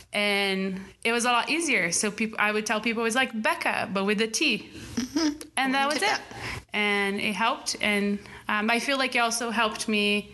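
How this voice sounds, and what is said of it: Brazilian-accented English. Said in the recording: “I felt in the beginning like a foreigner ... my accent ... in Brazil”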